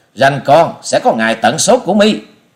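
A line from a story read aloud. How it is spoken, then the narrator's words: Furious loud shout. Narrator (Vietnamese): Bị đối phương buông lời khinh rẻ, thiếu nữ áo xanh giận tái mặt quát to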